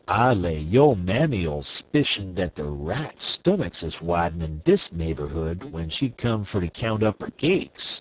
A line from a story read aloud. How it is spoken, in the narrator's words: said Uncle Remus with a chuckle